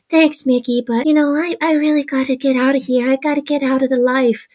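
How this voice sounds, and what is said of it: Jennifer Tilly impression. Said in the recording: “do such a good Jennifer Tilly impression.”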